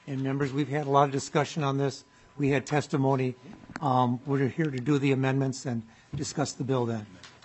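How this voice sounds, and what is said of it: Hoarse, strained, fading voice. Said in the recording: “I'm losing my voice here.”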